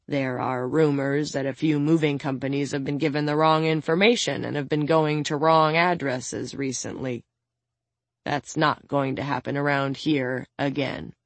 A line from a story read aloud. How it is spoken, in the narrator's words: mutters